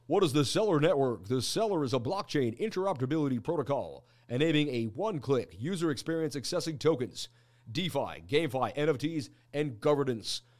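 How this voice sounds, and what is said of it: Announcer-style radio voice. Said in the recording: “Radio voice, please.”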